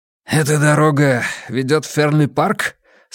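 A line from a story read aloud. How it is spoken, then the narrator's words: Hoarse question. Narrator (Russian): спросил незнакомец хриплым голосом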